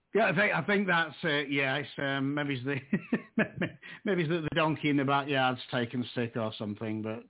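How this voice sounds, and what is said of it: Yorkshire Northern English accent. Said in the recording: “are you in England? ... Obviously, originally from England. ... I've lived in Yorkshire, Northern England, for most of my life.”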